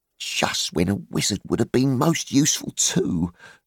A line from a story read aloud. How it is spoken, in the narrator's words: groaned Dory and Nori